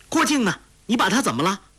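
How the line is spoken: Rapid anguished cries. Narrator (Chinese): 欧阳锋不禁连珠着叫起苦来

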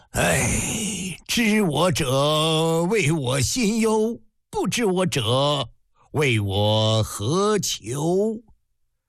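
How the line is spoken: Long sigh. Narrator (Chinese): 蔡泽不禁一声长叹

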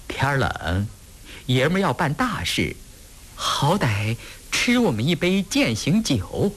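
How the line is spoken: Forced smile. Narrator (Chinese): 阿兰勉强笑着说

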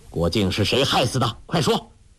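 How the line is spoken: Stern harsh voice. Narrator (Chinese): 丘处机厉声说

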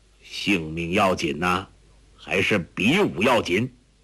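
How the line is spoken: Cold. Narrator (Chinese): 何振恶冷冷地说

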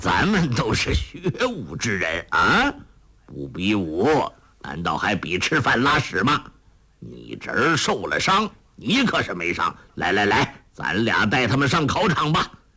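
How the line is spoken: Bold laughing. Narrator (Chinese): 仰天一笑……说道

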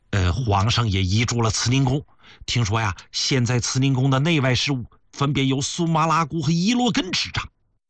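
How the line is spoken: Low voice. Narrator (Chinese): 吴拜…他低声说呀

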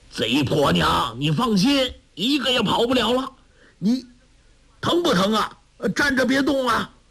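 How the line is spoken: Shouting. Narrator (Chinese): 陈玄风叫道

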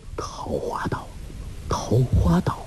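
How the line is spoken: Stunned murmuring. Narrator (Chinese): 那渔人惊得张大了口，合不拢来，喃喃地说

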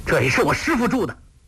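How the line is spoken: Furious. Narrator (Chinese): 郭靖大怒，跳了起来说

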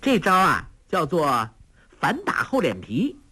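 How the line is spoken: Laughing. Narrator (Chinese): 黄蓉笑道

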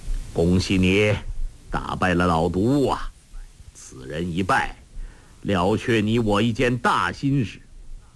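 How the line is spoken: Slight smile. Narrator (Chinese): 黄药师微微一笑，说道

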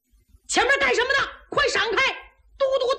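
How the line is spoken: Loud shout. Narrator (Chinese): 有人高喊

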